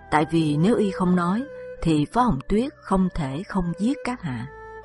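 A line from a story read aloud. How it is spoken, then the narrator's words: Sighing reply. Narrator (Vietnamese): Diệp Khai thở dài, đáp thay Lộ Tiểu Giai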